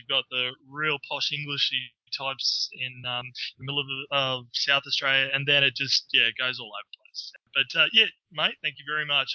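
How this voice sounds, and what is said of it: Australian accent. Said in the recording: “that accent... Australian accent is awesome. Everything you say sounds awesome.”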